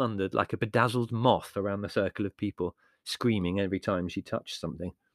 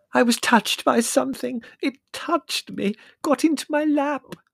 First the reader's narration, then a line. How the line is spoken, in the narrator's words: said Prue tearfully